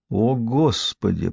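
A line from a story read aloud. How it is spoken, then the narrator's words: Muttering. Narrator (Russian): пробормотала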